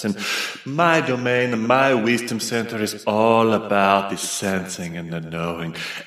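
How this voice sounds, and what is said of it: Playful put-on Italian accent. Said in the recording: “I'm playing with this accent that's from Italy, perhaps.”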